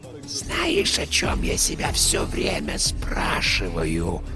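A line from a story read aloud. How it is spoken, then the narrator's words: Whisper from a vent. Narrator (Russian): Раздался шепот Терри из вентиляционного отверстия под приборной доской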